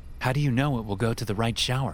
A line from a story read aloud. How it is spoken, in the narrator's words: I asked